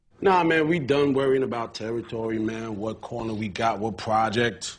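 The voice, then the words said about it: Black American Baltimore accent. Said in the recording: “That black American accent with overtones of Baltimore took Idris Elba a while to learn”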